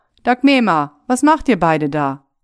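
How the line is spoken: Called out to wife. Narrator (German): Er rief seiner Frau zu

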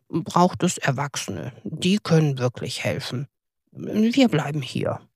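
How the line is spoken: Calm. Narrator (German): sagte Toni ruhig

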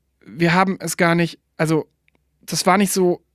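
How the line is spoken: Stammering to oneself. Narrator (German): stammelte ich vor mich hin

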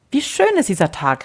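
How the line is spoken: Calling out. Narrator (German): rief der Freund

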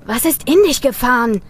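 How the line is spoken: Shout. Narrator (German): rief Tim

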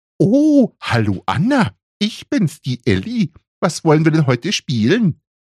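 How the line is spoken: Mocking high-pitched imitation. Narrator (German): äffte er seine Schwester mit hoher Stimme nach

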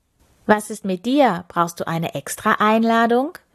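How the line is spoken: Plain question. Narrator (German): fragte sie Kirko

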